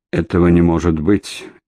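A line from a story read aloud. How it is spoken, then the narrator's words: Astonished mutter. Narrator (Russian): изумленно пробормотал охранник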